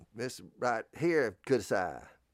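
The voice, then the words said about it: Japanese in fake Southern accent. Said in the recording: “you speak Japanese with a fake Southern accent.”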